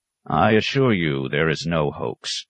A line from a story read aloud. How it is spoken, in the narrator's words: said stiffly